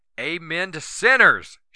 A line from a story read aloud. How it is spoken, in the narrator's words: she yelled